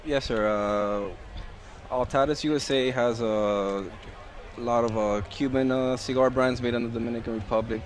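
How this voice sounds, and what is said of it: Speaks with a foreign accent. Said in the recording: “I got an accent, so it'll sound a little different.”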